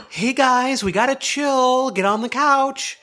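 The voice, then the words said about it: Voice used for talking to dogs. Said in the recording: “not my dog voice”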